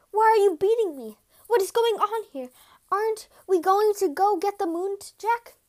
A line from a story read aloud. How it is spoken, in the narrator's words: The impostor was greatly confused by all of this and cried